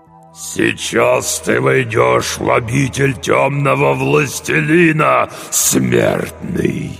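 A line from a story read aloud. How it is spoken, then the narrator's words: Strained demonic growl. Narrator (Russian): прорычал демон с натугой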